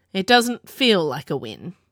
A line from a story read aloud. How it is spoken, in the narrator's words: Kai grumbled